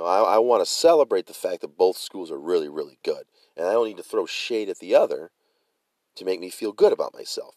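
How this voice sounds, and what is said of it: Hoarse, strained voice. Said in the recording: “excuse me, I'm losing my voice,”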